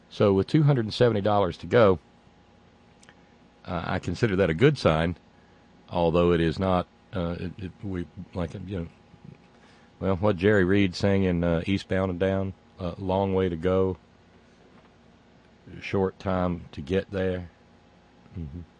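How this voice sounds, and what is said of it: Exaggerated corn pone Southern accent. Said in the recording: “the corn pone accent”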